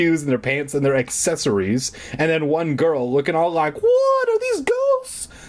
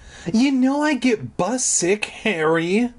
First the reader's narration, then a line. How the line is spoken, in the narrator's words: Alex groaned